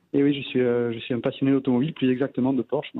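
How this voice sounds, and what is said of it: Southern French Provençal accent. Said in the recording (French): “ce joli accent ? ... Du sud. Ouais. Je suis en Provence, moi.”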